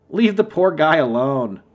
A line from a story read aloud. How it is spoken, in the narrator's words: I said, chuckling